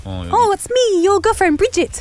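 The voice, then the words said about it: Put-on New Zealand accent. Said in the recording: “She's Kiwi. Can I do the accent?”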